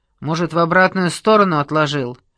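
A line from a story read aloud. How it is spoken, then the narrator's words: Indignant snort. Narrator (Russian): Теткин негодующе фыркнул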